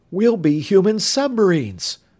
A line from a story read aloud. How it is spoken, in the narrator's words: Bud exclaimed